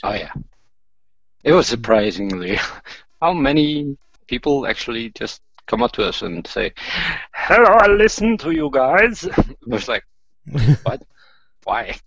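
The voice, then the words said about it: Icelandic accent in English. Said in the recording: “You're talking English, ... with an Icelandic accent”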